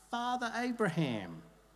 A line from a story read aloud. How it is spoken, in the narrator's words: he called out